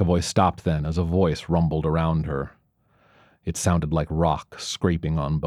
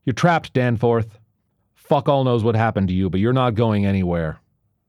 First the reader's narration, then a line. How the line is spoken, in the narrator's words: She secured the external lock and shouted through the door